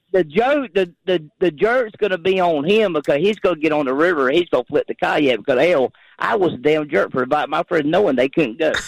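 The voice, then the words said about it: Southern American accent. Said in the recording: “I got the southern accent”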